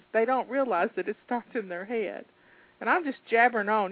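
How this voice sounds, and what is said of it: Southern American accent. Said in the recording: “I like hearing you talk. Southern accent.”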